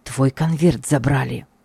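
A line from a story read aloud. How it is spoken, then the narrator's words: Breathless whisper. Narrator (Russian): тяжело дыша прошептал он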